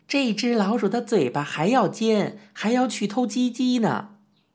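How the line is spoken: Barking command. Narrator (Chinese): 老鼠喝道

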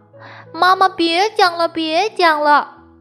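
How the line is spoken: Crying, fussing child. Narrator (Chinese): 莱昂一直哭闹

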